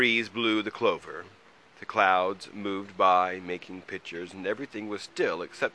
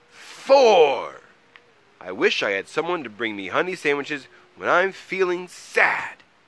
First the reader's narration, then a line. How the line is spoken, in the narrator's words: He yelled so loudly that Troll hid